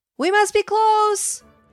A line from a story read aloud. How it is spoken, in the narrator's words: Drake yelled